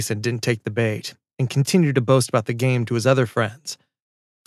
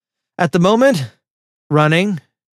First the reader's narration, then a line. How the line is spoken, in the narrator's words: panted